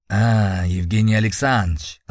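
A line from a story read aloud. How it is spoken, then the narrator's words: Joyful exclamation. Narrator (Russian): радостно воскликнул Боровицкий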